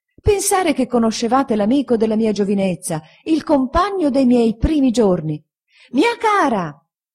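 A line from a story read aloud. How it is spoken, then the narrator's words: Shouting from railing. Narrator (Italian): gridando dalla ringhiera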